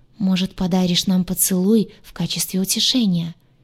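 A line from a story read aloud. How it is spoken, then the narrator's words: Husky, aroused. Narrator (Russian): произнес слегка охрипшим от возбуждения голосом Кай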